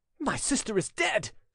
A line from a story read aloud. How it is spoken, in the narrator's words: cried Gabriel